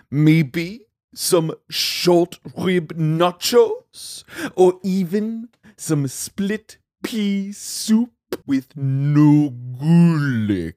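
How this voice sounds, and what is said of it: Inconsistent put-on accent, slightly Jamaican. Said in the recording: “You said a little Jamaican at the end of no garlic ... my accent was about as consistent as any accent”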